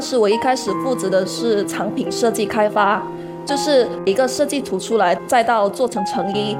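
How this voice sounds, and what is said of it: Chaoshan-accented Mandarin. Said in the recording (Chinese): “潮汕口音它会有点平舌音跟卷舌音部分，前后鼻音部分”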